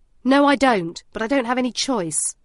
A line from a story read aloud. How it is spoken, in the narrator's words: the DCI barks